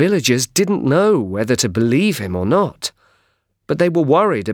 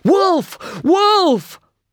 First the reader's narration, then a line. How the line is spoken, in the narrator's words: heard his cries